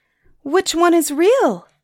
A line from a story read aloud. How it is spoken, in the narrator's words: cried Suni